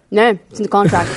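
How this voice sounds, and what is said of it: Advertising announcer voice. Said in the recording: “We got to do the same advertising voice.”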